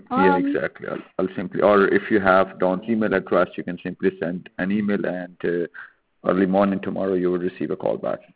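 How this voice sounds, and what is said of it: Heavy accent. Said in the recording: “Are you guys calling out of the UK or something? With the, you have such a heavy accent. You all have that same accent.”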